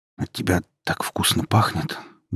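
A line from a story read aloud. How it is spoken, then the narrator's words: Muffled mutter. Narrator (Russian): буркнул молодой человек, утыкаясь носом в ее надушенную шею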